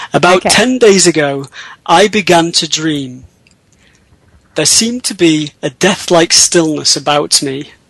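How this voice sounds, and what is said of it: English accent. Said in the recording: “English accent ... I can't put on an American accent as much as I would like to, so I'll use my own”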